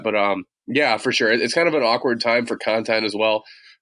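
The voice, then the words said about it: Congested, rough allergy-affected voice. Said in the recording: “apologize for my voice. ... getting punched in the face by allergies ... that's why I sound like crap.”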